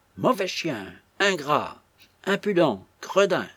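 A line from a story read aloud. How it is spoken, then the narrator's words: Old woman's jerky outburst. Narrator (French): s'écria la vieille d'un ton saccadé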